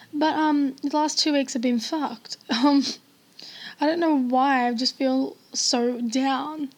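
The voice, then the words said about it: Sad voice, cracking. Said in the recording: “Oh my god, now my voice is cracking.”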